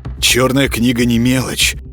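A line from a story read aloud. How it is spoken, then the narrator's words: Thoughtful mutter. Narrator (Russian): задумчиво пробормотал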